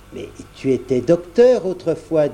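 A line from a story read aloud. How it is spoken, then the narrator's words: Plain. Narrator (French): dit Perrine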